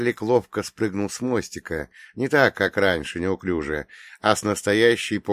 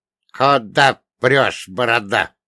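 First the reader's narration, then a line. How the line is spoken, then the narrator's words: Indignant hoarse rasp. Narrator (Russian): возмущенно прохрипел лодочник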